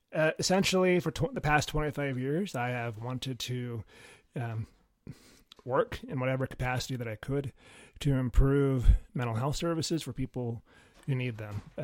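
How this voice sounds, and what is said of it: Congested voice from a cold. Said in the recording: “I have a cold, so I'm doing the best that I can”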